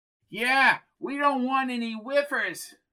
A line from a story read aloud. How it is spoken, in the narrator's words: cried Bucky